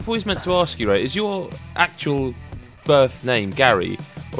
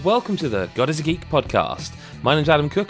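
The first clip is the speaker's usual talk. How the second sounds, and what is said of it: Put-on radio announcer voice. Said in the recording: “I put my best radio voice on there”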